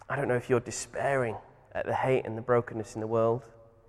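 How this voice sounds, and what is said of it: Speaks with a noticeable accent. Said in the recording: “You thought you heard my dulcet tones and thought, wow, where's that accent from?”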